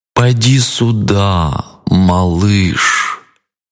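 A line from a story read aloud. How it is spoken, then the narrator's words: Drawling crocodile. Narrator (Russian): протянул крокодил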